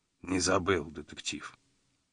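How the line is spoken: Quiet. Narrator (Russian): тихо вымолвил он

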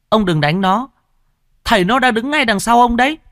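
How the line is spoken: Boy shouting. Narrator (Vietnamese): thằng cu kia quát

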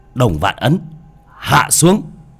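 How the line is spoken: Shout. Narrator (Vietnamese): Bác quát

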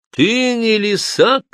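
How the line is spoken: Shout. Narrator (Russian): крикнул

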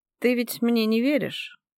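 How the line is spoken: Weary, sighing. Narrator (Russian): выговариваю, устало вздыхая

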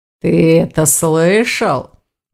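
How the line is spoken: Sly drawl. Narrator (Russian): протянул Аристакес, ехидно

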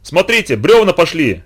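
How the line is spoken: Shouting. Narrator (Russian): закричал Галышев

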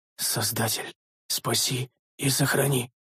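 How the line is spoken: Hoarse whisper. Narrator (Russian): хрипло прошептал один из всадников

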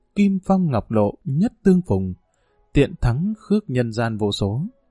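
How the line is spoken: Tearful soft recitation. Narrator (Vietnamese): Lệ đẫm nhòe mi, Mã Liên Nhi khẽ ngâm

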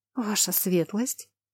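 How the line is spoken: Automatic whisper. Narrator (Russian): будто на каком-то автоматизме прошептала

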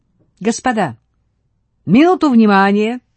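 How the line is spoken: Cheerful shout. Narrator (Russian): весело крикнул Брохвич

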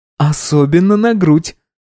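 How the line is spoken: Giggling. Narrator (Russian): хихикнула рыжая

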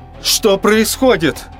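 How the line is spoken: Loud yell. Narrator (Russian): заорал что из сил

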